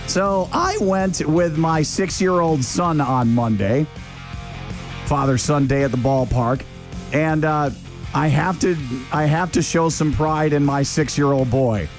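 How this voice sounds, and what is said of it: Hoarse voice. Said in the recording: “my voice is so hoarse from all the yelling and screaming, and also from all of the trash talking”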